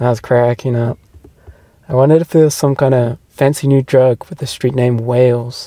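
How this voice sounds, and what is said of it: Usual voice. Nothing is said of it.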